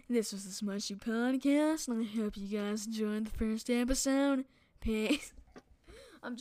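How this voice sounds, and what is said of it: Exaggerated podcast host voice. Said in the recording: “Oh, I'm gonna get my podcast voice.”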